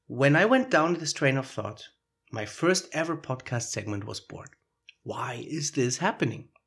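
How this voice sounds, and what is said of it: Foreign-accented English. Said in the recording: “I immediately pick up my foreign accent.”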